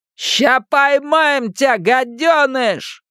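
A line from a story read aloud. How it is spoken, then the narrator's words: Ghostly shout. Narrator (Russian): прокричал голос-призрак Генри Бауэрса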